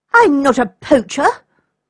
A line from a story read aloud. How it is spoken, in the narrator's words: cried the boy indignantly